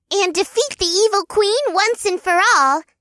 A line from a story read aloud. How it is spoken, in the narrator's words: Zeedee squeaked with an excited bounce